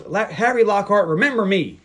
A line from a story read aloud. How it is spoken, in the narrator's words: Harmony yells